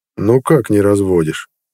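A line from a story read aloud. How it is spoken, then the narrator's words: Calm, ominous sergeant. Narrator (Russian): спокойно зловеще осведомился сержант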